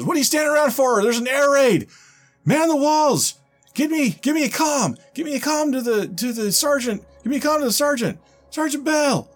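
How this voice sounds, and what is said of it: Shouting character voice. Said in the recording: “he's shouting”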